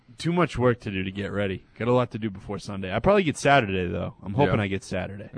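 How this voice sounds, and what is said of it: Sick, ill-sounding voice. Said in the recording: “You're dying in there, aren't you? ... You can tell by my voice ... You're freaking dying in there ... He's going to get all the Patriots sick”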